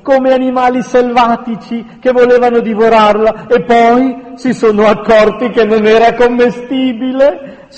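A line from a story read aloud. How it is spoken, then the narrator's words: Shouted. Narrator (Italian): gridò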